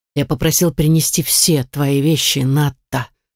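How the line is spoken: Grumbling dragon. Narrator (Russian): проворчал дракон

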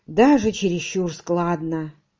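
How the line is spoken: Gloomy reply. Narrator (Russian): мрачно отозвался Поль

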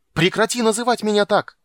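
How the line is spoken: Yelling. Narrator (Russian): заорал он

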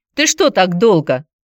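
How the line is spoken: Stern question. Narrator (Russian): строго спросила Алина

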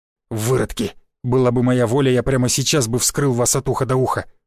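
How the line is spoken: Growled. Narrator (Russian): прорычал он

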